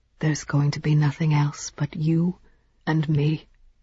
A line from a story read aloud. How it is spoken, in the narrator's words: he whispered